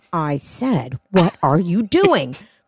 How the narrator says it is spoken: Sean reiterates in a slow, angry tone

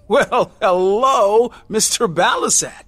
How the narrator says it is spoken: exclaim

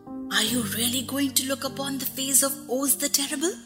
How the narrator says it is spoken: one of them whispered

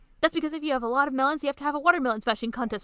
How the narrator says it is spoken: Momiji shouts

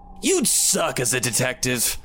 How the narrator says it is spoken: Beanpole taunted

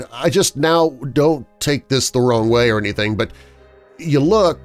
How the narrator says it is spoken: I stuttered

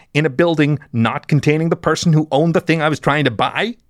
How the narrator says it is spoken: He growled

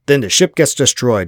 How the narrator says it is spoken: Chandini snapped

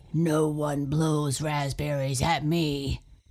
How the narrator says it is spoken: he roared

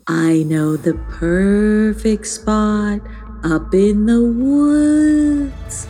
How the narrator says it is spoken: said Tagalina in a slightly spooky voice

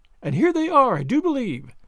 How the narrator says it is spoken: said Sally, excitedly

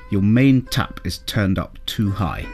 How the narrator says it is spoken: he said

